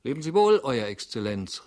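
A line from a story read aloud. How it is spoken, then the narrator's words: Sudden call. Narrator (German): rief er plötzlich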